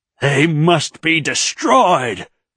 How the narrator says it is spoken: Dilaf screamed

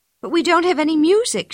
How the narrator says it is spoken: said in a worried voice

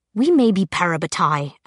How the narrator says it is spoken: Alec said tightly

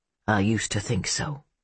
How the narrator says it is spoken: he murmured

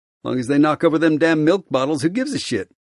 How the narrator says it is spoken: I chuckle

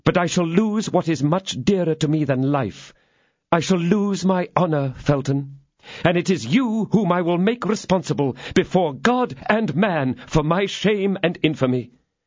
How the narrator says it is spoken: exclaimed her ladyship

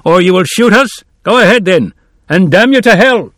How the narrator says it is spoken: There was a chorus of new voices, one man in front shouting

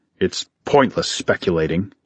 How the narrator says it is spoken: Talos muttered

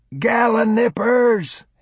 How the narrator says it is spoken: he yelled

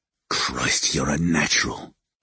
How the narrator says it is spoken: he said roughly

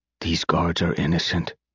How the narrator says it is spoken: Partiv randomly whispered

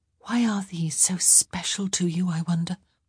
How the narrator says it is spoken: she whispered

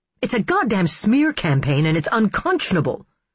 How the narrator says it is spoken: she snapped, beyond circumspection, beyond anger

